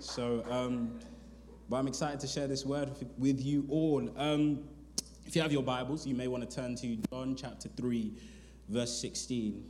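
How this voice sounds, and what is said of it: London English accent. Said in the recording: “I am from a Life Church London, hence the accent. So I have an accent.”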